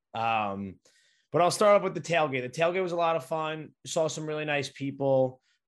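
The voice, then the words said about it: Raspy, strained voice. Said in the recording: “you probably can tell my voice is pretty raspy right now. ... I lost it on the opening kickoff. My voice cracked on the opening kickoff. It was 100% gone.”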